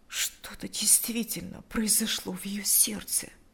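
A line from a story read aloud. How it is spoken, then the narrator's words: Quiet elderly woman. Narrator (Russian): Тихо обратилась пожилая женщина к своему мужу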